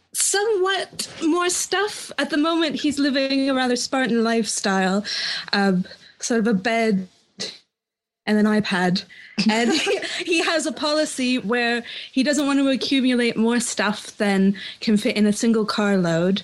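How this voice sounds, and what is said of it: Fake British accent. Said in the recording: “your phony British accent”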